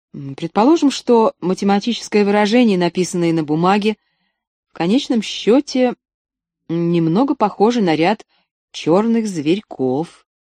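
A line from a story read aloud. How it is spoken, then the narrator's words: Uncertain. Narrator (Russian): сказал я неуверенно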